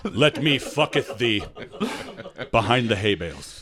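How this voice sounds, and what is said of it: Put-on Amish Pennsylvania Dutch accent. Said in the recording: “Pennsylvania Dutch country, like Amish Dutch Amish accent”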